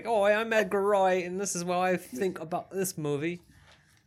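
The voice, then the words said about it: Imitates a thick English accent. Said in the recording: “he's also got one of the best English accents. Like, his is so like ... His is so thick, and we are so bad at accents, and then we've just kind of started parodying ourselves”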